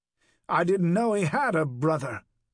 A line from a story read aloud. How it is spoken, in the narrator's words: Whitechurch said